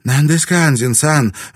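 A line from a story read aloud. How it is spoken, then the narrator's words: Exclaimed in unison, women. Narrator (Russian): в один голос воскликнули женщины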